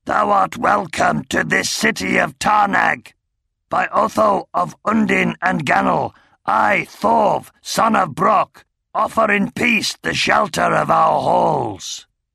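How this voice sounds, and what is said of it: Gruff, rasping voice with rough burr. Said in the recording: “His accent grumbled and rasped with a rough burr quite unlike Oric's.”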